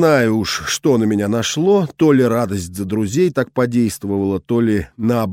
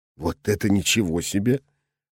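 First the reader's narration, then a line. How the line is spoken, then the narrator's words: Muttered. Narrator (Russian): пробормотал он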